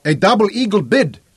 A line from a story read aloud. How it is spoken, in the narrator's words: he said harshly